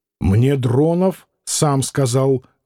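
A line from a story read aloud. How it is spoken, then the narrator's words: Rough announcement. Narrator (Russian): грубо объявил Клим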